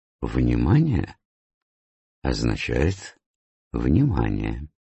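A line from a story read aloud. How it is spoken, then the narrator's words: Soft reply. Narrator (Russian): Икю мягко ответил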